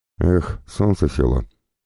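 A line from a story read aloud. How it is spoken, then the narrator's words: Sighed. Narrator (Russian): вздохнул Григорий Ефимович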